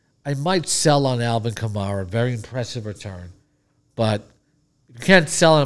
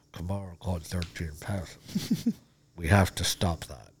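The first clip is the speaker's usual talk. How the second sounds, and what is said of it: Imitates another person's voice. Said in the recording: “It's a good impression.”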